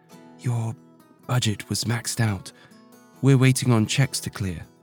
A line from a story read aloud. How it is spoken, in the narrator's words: whispered in her ear